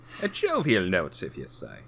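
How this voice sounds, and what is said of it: Bad put-on old English accent. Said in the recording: “I don't know what accent that was supposed to be. ... It was a really bad English, old English accent. ... I think it started off as something else.”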